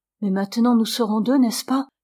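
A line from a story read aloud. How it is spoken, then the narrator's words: Bold woman exclaiming. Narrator (French): s'écria la vaillante femme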